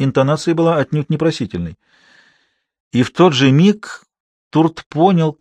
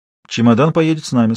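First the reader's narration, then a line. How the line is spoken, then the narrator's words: Plain. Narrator (Russian): сказала таможница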